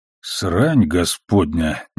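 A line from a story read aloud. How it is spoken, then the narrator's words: Flat mutter. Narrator (Russian): невыразительно пробормотал Амос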